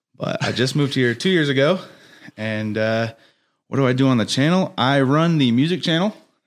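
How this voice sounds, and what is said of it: American accent. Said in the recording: “I know I have an American accent”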